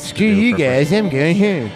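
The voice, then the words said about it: Cartman impression voice. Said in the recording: “He's very Cartman. That's a very Cartman voice.”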